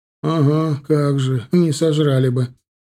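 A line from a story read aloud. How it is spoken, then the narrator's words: Young man grumbling. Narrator (Russian): пробурчал второй парень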